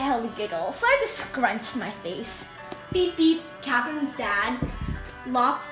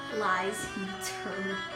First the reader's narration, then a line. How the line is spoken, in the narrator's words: Cat mutter